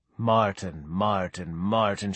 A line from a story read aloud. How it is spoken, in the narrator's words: she sighed